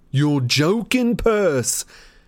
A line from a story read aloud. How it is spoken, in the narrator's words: shouted Fred